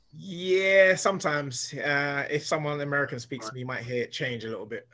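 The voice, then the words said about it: South London English accent. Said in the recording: “I notice you've not picked up that that American twang just yet. You still sound like you're from Lewisham.”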